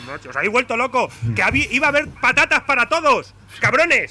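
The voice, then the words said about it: Shouting. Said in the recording (Spanish): “no grites”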